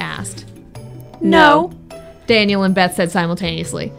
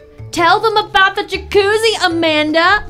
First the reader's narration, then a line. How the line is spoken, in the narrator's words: I shouted